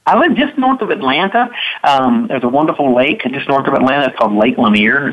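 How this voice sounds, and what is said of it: Boston-like American accent. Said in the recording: “I thought I detected a New York accent, but now the more I'm thinking about it, maybe it was kind of in the southern part of the country... it's more like Boston, I think”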